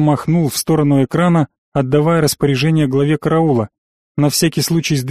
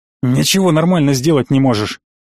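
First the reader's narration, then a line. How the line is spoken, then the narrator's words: Scornful snort. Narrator (Russian): фыркнул глава рода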